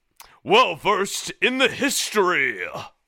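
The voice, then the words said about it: Professorial voice. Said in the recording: “give the professorial voice”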